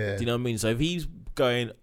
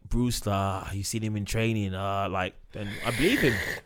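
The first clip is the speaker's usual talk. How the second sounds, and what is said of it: Imitates another person's voice. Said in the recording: “I love your Klopp accent, man.”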